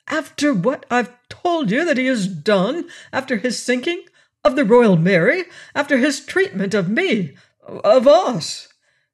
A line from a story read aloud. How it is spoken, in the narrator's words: Lord Julian protested indignantly